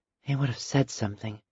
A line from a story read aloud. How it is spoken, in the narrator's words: breathed to herself